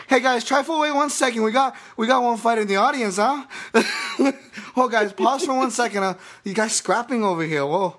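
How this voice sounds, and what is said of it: Put-on Hawaiian accent. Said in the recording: “I am Hawaiian, so forgive me for this, especially the accent here”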